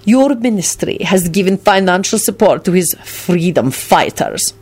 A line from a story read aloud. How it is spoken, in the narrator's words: Radu spat out these two words with venom